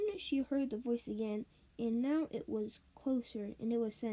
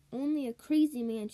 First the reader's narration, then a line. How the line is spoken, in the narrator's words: shouted